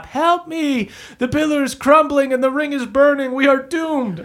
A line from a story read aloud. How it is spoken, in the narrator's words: Lydia screams from the top